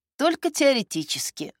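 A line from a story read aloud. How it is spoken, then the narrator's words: Snort. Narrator (Russian): фыркнула Мура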